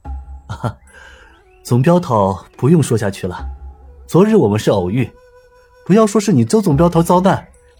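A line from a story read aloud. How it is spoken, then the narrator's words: Smiling. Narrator (Chinese): 他笑了笑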